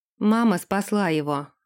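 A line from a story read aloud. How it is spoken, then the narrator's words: Plain. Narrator (Russian): ответил Дерек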